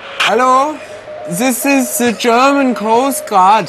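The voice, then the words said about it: German accent. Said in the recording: “the German Joe. Accent can be funny.”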